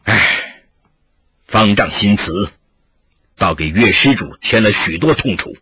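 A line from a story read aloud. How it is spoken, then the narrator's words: Sighing. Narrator (Chinese): 叹了口气说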